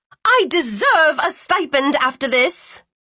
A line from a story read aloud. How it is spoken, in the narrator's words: she shouted